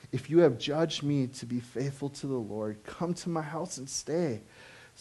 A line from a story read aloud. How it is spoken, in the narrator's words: she begged us, saying